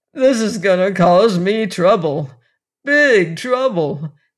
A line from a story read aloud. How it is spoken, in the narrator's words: chief wailed